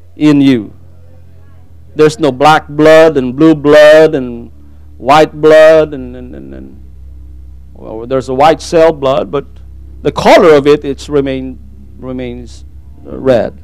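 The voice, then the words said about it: Tagalog-accented English. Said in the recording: “I hope you understand my accent here. English is not my main language. I speak Tagalog. So if I say a little bit different English”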